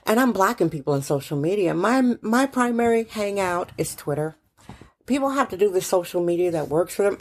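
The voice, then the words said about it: Rough, hoarse voice. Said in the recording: “I have laryngitis ... my voice is a little rough”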